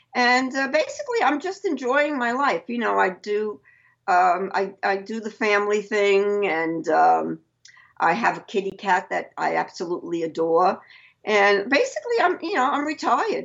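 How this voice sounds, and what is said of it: Brooklyn New York accent. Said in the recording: “I love your accent, by the way, because it just brings me back home. Because my mom and her family are from Brooklyn.”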